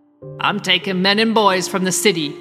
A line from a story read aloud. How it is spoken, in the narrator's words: Yoren growled